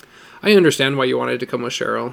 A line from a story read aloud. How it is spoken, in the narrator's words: said finally